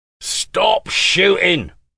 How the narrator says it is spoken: he shouted

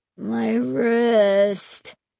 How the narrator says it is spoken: Mark moaned from nearby

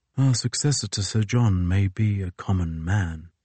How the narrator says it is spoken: he said softly

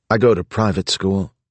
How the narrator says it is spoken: the girl said dryly

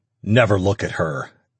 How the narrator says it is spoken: Ash growled

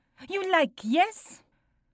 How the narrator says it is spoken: I laugh

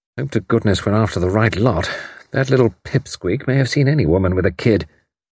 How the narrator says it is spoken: The commander murmured to himself

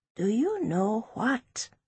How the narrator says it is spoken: She whispered to Precious

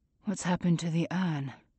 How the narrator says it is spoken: whisper, as if it's too harsh to say out loud

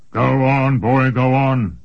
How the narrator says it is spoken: grumbled Einhaus

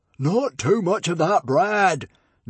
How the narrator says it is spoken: Norbert roared greedily

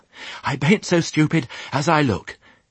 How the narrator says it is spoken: he panted

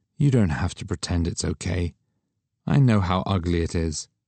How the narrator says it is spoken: she said sadly

